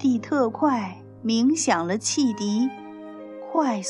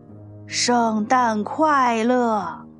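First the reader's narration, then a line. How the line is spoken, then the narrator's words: Loud. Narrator (Chinese): 大声说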